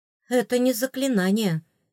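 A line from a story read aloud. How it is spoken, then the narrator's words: Sighing. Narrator (Russian): вздохнула я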